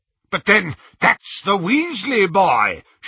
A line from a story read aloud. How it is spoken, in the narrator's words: shouted Lucius